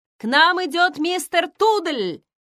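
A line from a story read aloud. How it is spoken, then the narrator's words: Shouted from below. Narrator (Russian): крикнула снизу Джо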